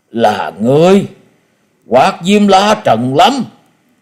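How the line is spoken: Astonished, speaking in unison. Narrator (Vietnamese): Tứ độc thư sinh đồng loạt kêu lên mấy tiếng kinh ngạc, đồng thanh nói

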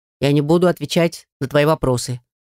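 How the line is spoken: Dry reply. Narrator (Russian): сухо ответил он

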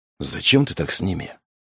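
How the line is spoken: Whispered question. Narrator (Russian): шепотом спросил Денис

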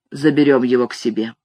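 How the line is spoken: Mumbled. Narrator (Russian): мой патрон пробормотал

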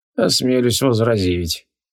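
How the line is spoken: Sad sigh. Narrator (Russian): печально вздохнул Бат Крилах

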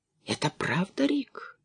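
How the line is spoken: Whisper. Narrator (Russian): прошептала она

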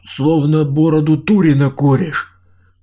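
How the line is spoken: Pitiful wheezing reply. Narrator (Russian): Жалко просипел Саня в ответ

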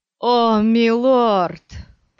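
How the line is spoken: Moaned. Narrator (Russian): простонал Стилгар

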